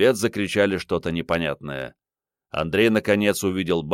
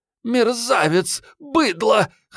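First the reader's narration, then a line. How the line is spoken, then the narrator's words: Wheezing. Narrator (Russian): хрипела Охлобыстина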